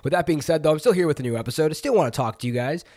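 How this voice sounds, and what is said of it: Congested, nasal voice. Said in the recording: “My voice may sound a little bit sinusy, nasally today ... I've been a little stuffed up”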